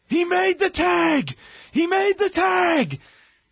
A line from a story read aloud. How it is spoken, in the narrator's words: screaming at the top of his lungs